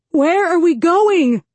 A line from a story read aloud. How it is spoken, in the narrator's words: Adelina yells